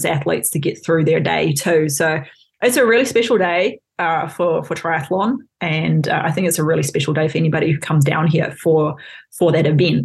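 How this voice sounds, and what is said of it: New Zealand accent, rolled R's. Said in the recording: “Kiwis and Aussies, slightly different accent ... my accent isn't too horrible these days. It's a bit of a blend. ... A bit of British. Occasionally a hint of American ... and then a heavy roll on the R's from Scottish parents”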